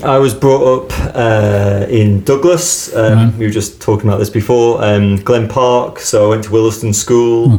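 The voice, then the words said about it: Manx accent. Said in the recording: “a Manx accent”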